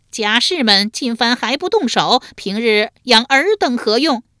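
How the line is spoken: Loud alarmed shout. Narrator (Chinese): 树雕见其不妙，大声喝道

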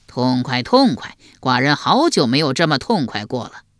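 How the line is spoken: Roaring laughter. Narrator (Chinese): 齐桓公又大笑，笑得前仰后合

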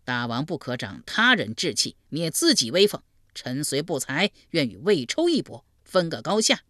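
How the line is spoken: Loud, agitated. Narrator (Chinese): 承德臣坐不住了，大声说道

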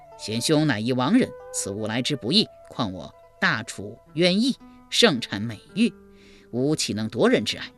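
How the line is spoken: Plain. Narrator (Chinese): 一边说

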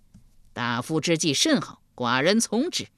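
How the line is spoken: Anger turning pleased. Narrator (Chinese): 秦穆公转怒为喜道

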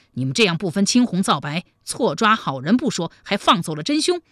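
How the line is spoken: Angry. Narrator (Chinese): 王汉怒道

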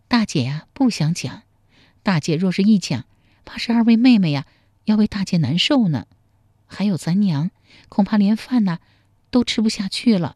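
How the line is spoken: Deep sigh. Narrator (Chinese): 秀英长叹一口气说

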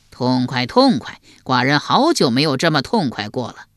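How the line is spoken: Hearty laughter. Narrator (Chinese): 齐桓公又大笑，笑得前仰后合

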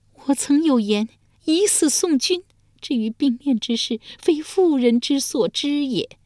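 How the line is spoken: Sighing. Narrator (Chinese): 长叹一声说道

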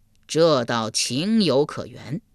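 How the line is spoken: Sighing. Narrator (Chinese): 阎罗天子叹道

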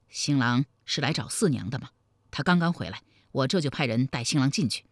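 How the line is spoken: Low-voiced question. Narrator (Chinese): 李隆基压低声音问道

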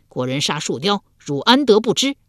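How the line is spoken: Angry ghosts. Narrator (Chinese): 五鬼怒道

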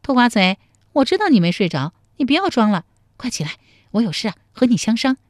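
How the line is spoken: Playful, grinning. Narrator (Chinese): 陶三春…笑嘻嘻地说

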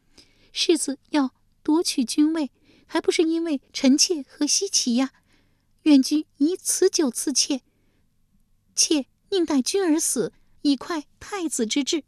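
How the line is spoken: Crying. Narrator (Chinese): 他一边哭说

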